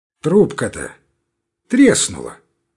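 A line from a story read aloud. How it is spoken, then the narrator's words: Businesslike remark. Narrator (Russian): заметил немец деловитым тоном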